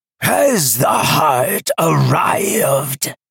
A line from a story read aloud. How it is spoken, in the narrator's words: the voice roared from the void